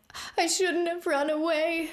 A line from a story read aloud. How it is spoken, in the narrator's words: she wailed